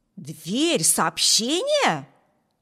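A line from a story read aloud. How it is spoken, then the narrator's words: Exclaiming. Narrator (Russian): воскликнул Виберт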